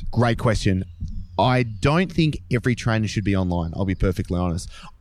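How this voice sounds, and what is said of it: Australian accent. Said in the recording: “you can tell by the accent, he's Aussie”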